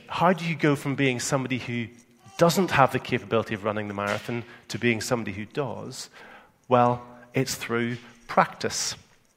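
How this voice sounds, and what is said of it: Northern Irish accent. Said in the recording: “my Northern Ireland accent, I always gravitate to saying power with just one syllable. I know you guys here in England normally have two syllables in it”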